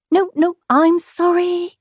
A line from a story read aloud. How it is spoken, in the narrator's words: stammered Kangaroo